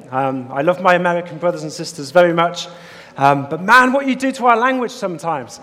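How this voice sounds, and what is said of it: British English accent. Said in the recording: “As you can hear from my accent, I'm not from the States or anywhere else. I'm from the UK, United Kingdom.”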